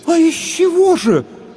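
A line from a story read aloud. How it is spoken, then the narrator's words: Puzzled women exclaiming together. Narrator (Russian): в один голос воскликнули озадаченные женщины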